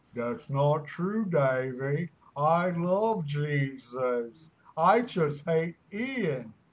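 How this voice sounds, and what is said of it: Goofy talking dog voice. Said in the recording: “trying to do a retarded dog voice”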